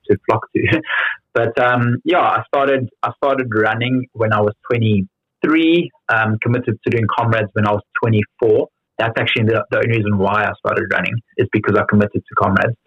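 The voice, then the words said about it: Strong South African accent. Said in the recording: “I've still got a very strong South African accent ... my South African accent's gotten stronger”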